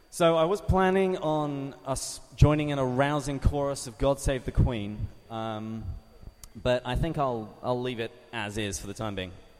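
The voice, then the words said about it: English accent. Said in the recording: “as you can hear from my accent, I'm not from around here. I am from across the Atlantic Ocean, from the great country of England.”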